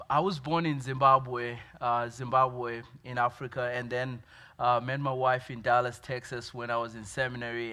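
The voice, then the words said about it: Noticeable foreign accent. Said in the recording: “you might sense an accent. ... You guys don't have accents.”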